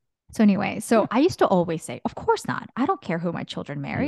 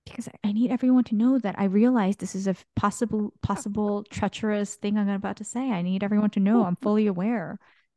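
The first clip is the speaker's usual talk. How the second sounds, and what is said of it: Whispering. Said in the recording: “I'm whispering again ... Whispering ... why are you whispering? ... That's how I convey my awareness by whispering.”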